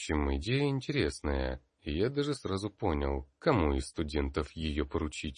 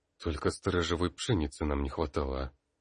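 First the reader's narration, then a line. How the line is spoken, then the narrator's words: Muttered under breath. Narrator (Russian): буркнул в полголоса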